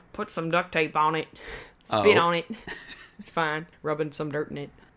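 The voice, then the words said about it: Put-on Southern American accent. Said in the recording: “I always revert to a Southern accent for whatever reason. ... It's the most distinct American accent.”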